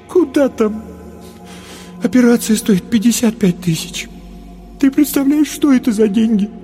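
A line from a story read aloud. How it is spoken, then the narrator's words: Sobbing. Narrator (Russian): Паша всхлипнул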